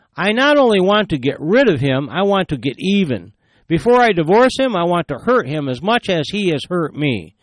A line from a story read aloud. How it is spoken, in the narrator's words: She exclaimed